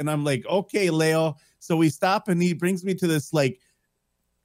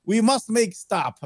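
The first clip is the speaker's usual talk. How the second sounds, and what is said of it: Put-on Italian accent. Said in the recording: “that's my Italian accent right there.”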